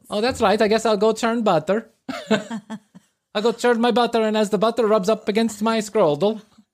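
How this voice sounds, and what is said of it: Put-on Dutch-sounding Amish accent. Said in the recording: “Why are they from Holland now? ... the Amish have a certain accent”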